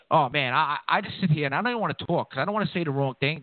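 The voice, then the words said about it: Queens New York accent. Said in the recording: “The kid from Queens with the accent.”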